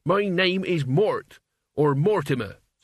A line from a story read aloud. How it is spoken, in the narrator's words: said Mort angrily